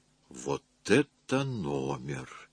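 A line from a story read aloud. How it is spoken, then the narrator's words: Muttering woman. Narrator (Russian): пробормотала она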